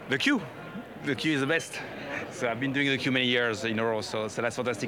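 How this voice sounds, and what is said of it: English with a French accent. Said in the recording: “as you can see from my accent, I'm half French”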